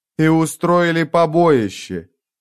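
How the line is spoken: Moaning. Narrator (Russian): Мураш простонал

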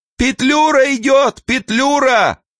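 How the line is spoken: Booming female shout. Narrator (Russian): гулкий женский голос прокричал

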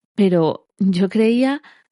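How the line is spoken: Stammered. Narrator (Spanish): balbució

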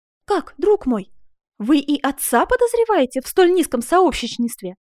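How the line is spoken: Woman exclaiming. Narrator (Russian): воскликнула Коломба

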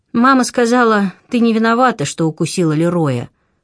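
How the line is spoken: Thin sugary voice. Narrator (Russian): произнесла она тонким слащавым голосом

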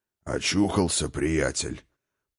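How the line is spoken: Deep-voiced old man nearby. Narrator (Russian): пробасил где-то рядом старый Хрофт

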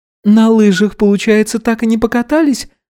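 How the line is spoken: Guilty sighing question. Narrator (Russian): спросила Изабелла, виновато вздохнув

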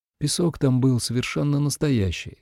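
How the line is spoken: Calm. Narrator (Russian): спокойно сказала

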